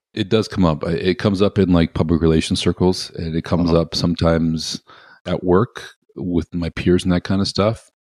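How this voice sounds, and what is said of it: Canadian accent. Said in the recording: “you do have a, if I may say so, Canadian accent”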